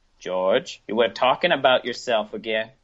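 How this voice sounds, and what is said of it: Puts on an unidentified accent. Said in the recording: “I don't know what kind of accent that was”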